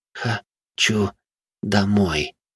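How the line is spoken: Weak girl's voice. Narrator (Russian): произнесла его дочь слабым голосом

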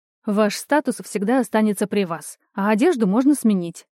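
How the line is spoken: Cheerful snort. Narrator (Russian): весело фыркнула я в ответ

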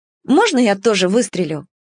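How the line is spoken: Plain. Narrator (Russian): сказала она

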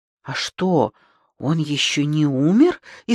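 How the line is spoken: Frightened question. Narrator (Russian): испуганно спросила Галочка

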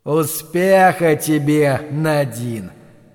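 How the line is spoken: Booming voice. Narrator (Russian): прогремел голос

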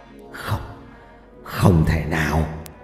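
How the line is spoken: Mutter. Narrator (Vietnamese): Ông thầy trà vẫn đứng miệng lẩm bẩm

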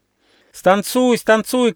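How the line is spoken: Children shouting. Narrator (Russian): кричали дети

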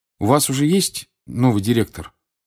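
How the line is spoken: Plain question. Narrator (Russian): спросил Гарри

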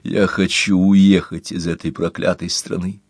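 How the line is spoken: Gloomy. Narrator (Russian): мрачно сказал Дент

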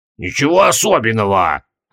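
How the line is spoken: Offended mutter. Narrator (Russian): обиженно буркнул Маркоттабок

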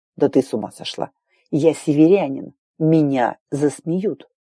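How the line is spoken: Hissing through teeth. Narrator (Russian): Прошипел сквозь зубы

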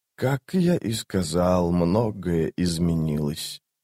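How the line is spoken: Quiet. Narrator (Russian): тихо сказал Крул

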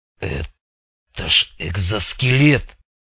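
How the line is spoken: Breathless exclamation. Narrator (Russian): выдохнул Резанный

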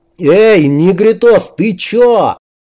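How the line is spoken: Frightened yell. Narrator (Russian): перепуганно заорал кирпич

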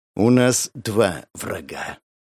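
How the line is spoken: Muttered through teeth, considered. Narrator (Russian): процедил он после коротких раздумий

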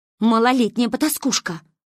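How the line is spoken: Angry spat words. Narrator (Russian): зло выплюнула Ася

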